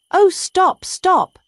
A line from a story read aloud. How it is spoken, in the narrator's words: cried the mole in ecstasies